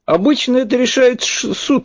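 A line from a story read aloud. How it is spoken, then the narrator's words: Polite, possibly trembling voice. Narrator (Russian): вежливо ответил я, думая, что дрожащим голосом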